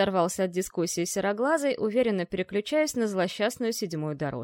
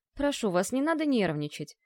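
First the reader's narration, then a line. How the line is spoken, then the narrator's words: Gentle, soothing. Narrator (Russian): ласковым тоном образцового психиатра утешил его предводитель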